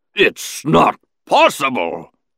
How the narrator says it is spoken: the Hutt bellowed into the comm droid

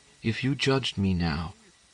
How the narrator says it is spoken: she continued in her intense whisper

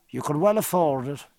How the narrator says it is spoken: said Stephen

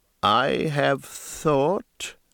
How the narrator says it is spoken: the chief began, slowly and with a civil solemnity

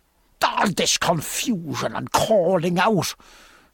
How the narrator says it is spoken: said Stephen angrily

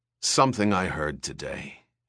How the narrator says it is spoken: he said hoarsely

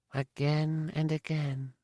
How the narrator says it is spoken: Sotur whispered

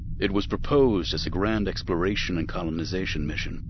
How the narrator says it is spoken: Windu said

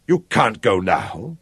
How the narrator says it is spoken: said fiercely

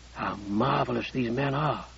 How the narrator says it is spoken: he whispered

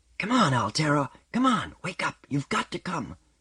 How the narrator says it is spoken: young Shevik whispering urgently

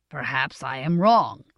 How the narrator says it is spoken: said Hemlock in his dry, flat voice

